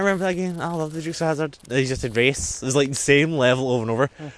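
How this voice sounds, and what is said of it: Usual voice. Nothing is said of it.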